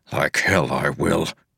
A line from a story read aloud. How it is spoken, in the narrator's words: Wax growled